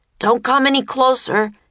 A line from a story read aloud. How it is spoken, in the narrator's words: Jack yelled